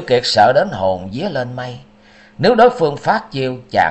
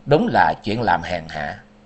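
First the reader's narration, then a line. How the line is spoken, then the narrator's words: Cold. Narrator (Vietnamese): Liễu Kiệt lạnh lùng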